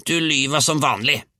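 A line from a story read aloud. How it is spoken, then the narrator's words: Grandmother howling. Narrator (Norwegian): hylte bestemor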